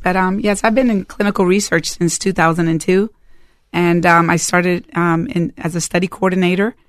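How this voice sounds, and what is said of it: Strained, failing voice. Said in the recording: “my voice is a little bit off today ... in case I lose my voice”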